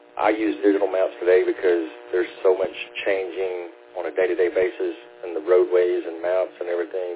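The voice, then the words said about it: Hoarse voice. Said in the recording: “I'm a little hoarse”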